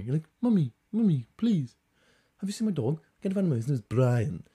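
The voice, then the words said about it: Stewie Griffin impression. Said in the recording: “Like Stewie Griffin, but dumb. Dumb Stewie Griffin.”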